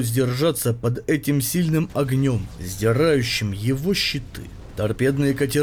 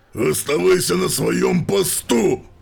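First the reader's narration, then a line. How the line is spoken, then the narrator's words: Monstrous barking. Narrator (Russian): рявкнул чудовищный капитан железных рук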